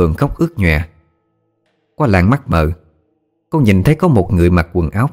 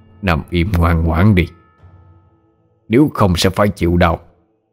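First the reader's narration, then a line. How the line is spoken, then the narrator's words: Cold voice. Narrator (Vietnamese): Một giọng nói lạnh lùng vang lên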